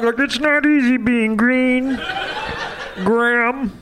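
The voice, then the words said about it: Kermit the Frog impression. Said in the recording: “your Kermit impression”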